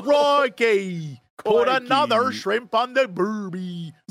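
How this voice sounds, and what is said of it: Put-on Australian accent. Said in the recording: “that amazing accent ... my Australian ... I am very good at acting”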